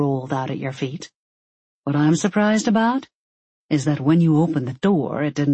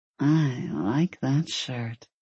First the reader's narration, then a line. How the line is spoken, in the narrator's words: she mumbled